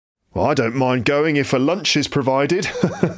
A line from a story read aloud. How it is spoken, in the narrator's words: laughed one gentleman